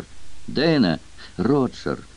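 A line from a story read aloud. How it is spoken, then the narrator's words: Tearful sob. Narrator (Russian): Сквозь слезы всхлипнула Дейна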